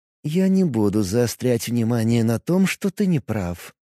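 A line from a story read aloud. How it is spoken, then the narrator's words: Soft. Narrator (Russian): мягко произнесла Вера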